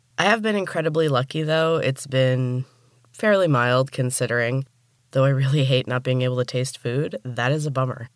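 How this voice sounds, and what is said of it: Rough, sick-sounding voice. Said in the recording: “forgive my voice today. The COVID finally got me, and my voice is pretty rough.”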